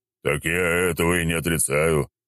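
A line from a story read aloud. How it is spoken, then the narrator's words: Deep bass voice. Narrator (Russian): пробасил Федор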